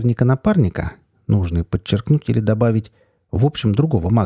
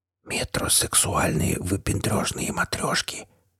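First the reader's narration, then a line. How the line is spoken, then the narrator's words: Sardonic whispered comment. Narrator (Russian): шепотом прокомментировал я, поскольку все происходящее начинало отдавать дурной театральщиной и похабнейшим китчем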